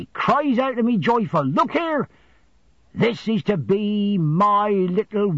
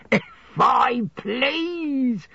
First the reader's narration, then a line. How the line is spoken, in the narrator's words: cried Mr